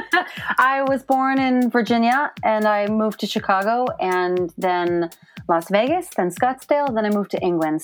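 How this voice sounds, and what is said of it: American accent. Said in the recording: “I don't detect a British accent ... I won't be losing my American accent anytime soon”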